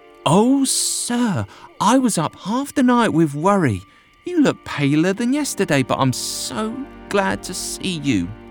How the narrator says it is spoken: She exclaimed

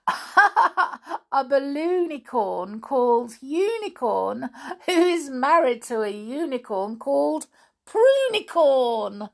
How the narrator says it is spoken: I giggled

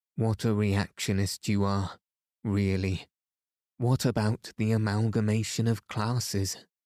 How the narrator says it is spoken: said Oblonsky

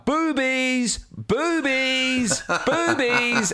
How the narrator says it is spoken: my son began to joyfully shout

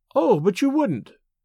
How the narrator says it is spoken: she exclaimed

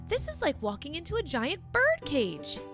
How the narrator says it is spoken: Jack yelled

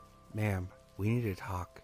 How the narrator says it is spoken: He says in a low, calm voice

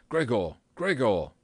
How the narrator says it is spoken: he called out

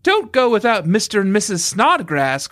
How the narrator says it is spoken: called Mary, but her voice was entirely drowned by the noise of wind and wave and the shouting of people on the streamer

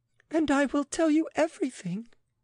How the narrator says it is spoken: she wailed

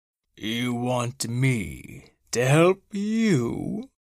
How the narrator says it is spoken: Snowflake said slowly

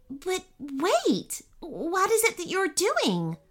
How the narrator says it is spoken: Bubba asked urgently

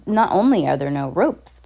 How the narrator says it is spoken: Violet said

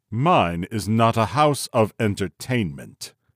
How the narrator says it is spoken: he said haughtily

